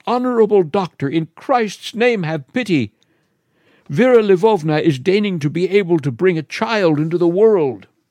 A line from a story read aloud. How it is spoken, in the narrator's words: cried